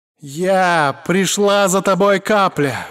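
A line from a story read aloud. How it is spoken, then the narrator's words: Roaring. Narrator (Russian): взревела она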